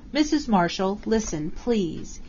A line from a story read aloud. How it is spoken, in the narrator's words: he begged in a low voice